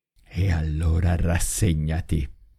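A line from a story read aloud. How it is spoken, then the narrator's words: Murmured through clenched teeth. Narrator (Italian): mormorò la donna a denti stretti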